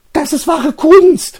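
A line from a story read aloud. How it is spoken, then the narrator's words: Calling out. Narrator (German): ruft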